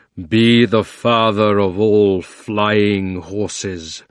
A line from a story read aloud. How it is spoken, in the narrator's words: roared Aslan in a voice that shook the ground